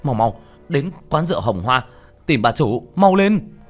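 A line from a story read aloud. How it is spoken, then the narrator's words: Panicked shout. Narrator (Vietnamese): Sắc mặt tiểu thất đại biến, hét lên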